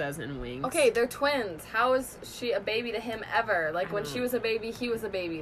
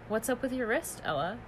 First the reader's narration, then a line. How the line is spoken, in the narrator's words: He asks in a serious tone